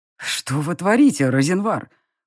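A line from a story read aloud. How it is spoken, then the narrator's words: Through gritted teeth. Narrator (Russian): процедил фон Грейслинг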